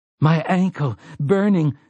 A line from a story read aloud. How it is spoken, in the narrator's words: Frank Tavery gasped